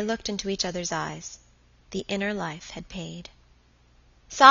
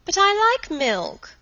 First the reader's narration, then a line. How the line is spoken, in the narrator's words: cried Helen